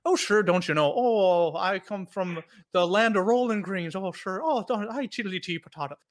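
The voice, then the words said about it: Fast fake Irish accent, sounds Minnesotan. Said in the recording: “trying to sing in an Irish accent, which I just had be my Minnesotan accent, just faster”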